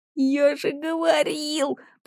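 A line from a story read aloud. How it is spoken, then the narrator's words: Hiss. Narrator (Russian): прошипел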